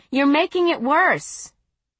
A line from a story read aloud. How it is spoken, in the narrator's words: I said, raising my voice to be heard